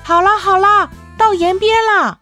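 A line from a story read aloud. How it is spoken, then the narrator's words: Group shouting from below. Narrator (Chinese): 大伙在下边喊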